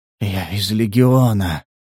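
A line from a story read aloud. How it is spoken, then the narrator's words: Weakening voice. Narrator (Russian): повторил незнакомец слабеющим голосом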